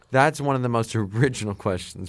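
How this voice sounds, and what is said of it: Sarcastic delivery. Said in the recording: “are you being sarcastic?”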